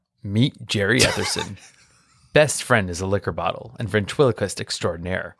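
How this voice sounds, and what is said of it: Imitates another person's voice. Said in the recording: “do my Rod Serling voice”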